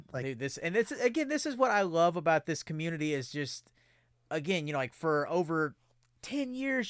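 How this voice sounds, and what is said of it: Choked-up, emotional voice. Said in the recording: “I'm gonna get a little choked up here. I'm gonna try and pull it back in”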